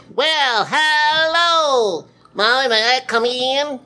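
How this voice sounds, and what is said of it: Imitates a character's voice. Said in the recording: “my impression of Little Peter”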